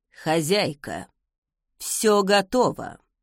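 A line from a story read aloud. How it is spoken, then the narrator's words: Sepulchral mumbling voice. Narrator (Russian): загробным голосом промычал он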